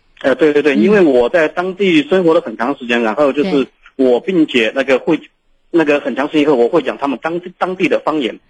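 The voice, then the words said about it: Southern Chinese, Jiangzhe-like accent. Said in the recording (Chinese): “我一讲普通话的话，他们很多人都说我是那个江浙一带 ... 您的这个南方口音很地道啊”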